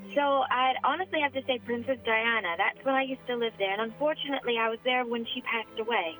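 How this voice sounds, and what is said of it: British accent with Southern US influence. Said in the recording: “It's pretty genuine, the accent, with a lot of influence of North Charleston in there ... the Monk's Corner accent really came out there”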